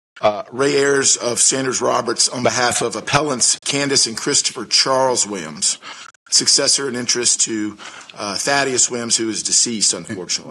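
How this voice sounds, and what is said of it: Hoarse voice. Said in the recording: “I'm a little bit hoarse this morning.”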